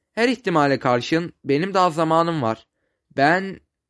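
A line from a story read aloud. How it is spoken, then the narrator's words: Stuttering. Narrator (Turkish): Ferdinand kekeleyerek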